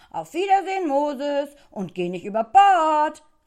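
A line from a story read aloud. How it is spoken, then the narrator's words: Called out. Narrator (German): rief Nadelmattes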